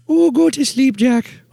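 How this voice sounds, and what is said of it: Mrs. Doubtfire character voice. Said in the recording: “You make him do Mrs. Doubtfire.”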